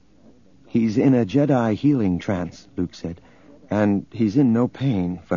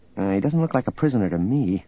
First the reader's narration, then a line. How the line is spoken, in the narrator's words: Leia muttered